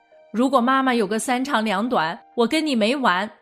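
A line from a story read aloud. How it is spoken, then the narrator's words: Loud angry shout. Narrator (Chinese): 大儿子，大声地对妹妹吼道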